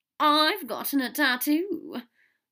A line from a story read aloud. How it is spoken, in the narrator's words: Draco said brightly